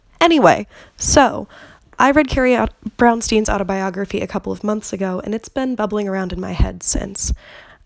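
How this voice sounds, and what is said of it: Voice sounds a little off, cold-like. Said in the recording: “I'm getting over this weird, maybe cold, maybe allergies thing, so I'm really sorry if my voice sounds a little weird”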